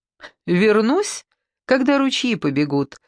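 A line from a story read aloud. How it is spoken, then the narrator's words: Laughing. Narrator (Russian): хохотнула Сашка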